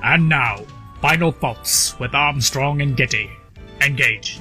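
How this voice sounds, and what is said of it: Poor Star Trek impersonation. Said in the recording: “we just needed a Star Trek impersonation, I guess? ... And not a good one.”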